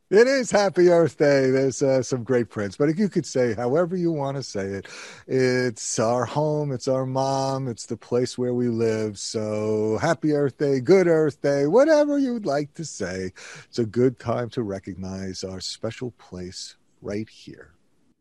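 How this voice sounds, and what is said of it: Noticeable regional New York dialect. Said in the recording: “what's that dialect I hear from you? Which part of the island are you from?”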